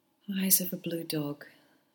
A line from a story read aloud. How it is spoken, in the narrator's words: she sighed